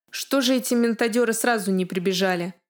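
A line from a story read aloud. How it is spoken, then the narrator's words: Grumbling. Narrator (Russian): проворчал Пори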